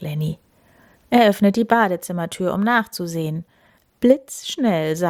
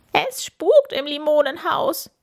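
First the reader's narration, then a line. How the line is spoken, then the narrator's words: Shrieking. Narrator (German): kreischt Camilla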